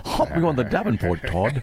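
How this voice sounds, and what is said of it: Poor put-on North Dakota accent. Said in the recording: “he's not exactly nailing the accent ... because it's horrible”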